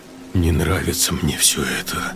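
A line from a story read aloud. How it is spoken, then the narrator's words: Muttering. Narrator (Russian): пробормотал Сергей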